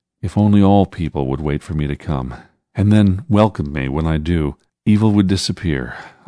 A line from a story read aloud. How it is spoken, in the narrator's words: I said with a sigh